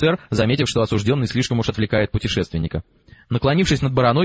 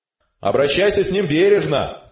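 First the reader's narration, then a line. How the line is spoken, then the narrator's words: Shout. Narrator (Russian): крикнул офицер снова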